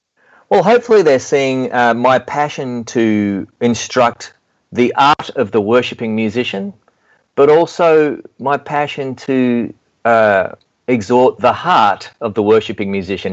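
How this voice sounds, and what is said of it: Bad put-on American accent. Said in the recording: “my bad American accent attempt”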